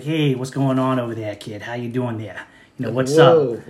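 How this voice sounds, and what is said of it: Put-on Boston accent. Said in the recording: “I love the Bostonian accent ... Boston accent”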